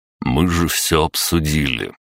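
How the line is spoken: Even voice. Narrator (Russian): ровным голосом произнес

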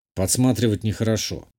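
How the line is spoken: Grumbled mutter. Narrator (Russian): буркнул

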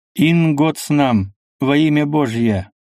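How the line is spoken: Stern firm reading voice. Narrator (Russian): начал читать суровым твердым голосом

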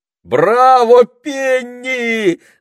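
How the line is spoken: Shout. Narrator (Russian): закричал Питер

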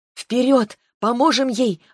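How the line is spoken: Exclamation. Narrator (Russian): воскликнула я

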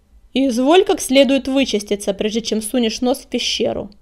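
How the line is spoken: Barked, familiar voice. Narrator (Russian): рявкнул над духом знакомый голос

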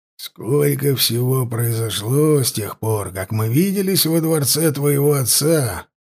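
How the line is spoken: Quiet speech. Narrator (Russian): тихо сказал он

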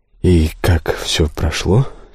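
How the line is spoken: Quiet question. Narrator (Russian): тихо спросил я

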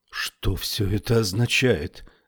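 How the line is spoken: Trembling voice. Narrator (Russian): спросила Феба дрожащим голосом

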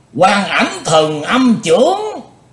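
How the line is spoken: Joyful group exclamation. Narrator (Vietnamese): Các cao thủ ngũ đại phái cả thải đều vui mừng kêu lên

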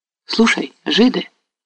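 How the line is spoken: Agitated voice. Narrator (Russian): заговорила она взволнованным голосом

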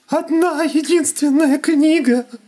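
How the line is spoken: Sobbing. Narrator (Russian): рыдал он

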